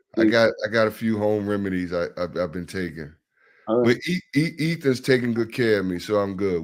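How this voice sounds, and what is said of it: Sick-sounding voice. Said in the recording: “I know you're a little bit sick ... You probably can hear it in my voice”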